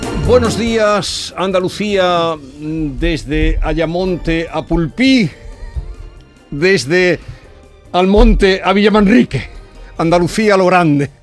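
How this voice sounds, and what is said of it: Andalusian Spanish accent. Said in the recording (Spanish): “con acento andaluz”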